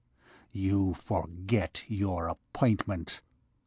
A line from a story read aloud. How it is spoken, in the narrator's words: he said, and his tone vibrated with bitterness